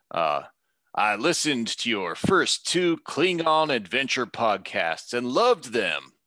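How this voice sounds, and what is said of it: Reads message in a character voice. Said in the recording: “give him a character voice.”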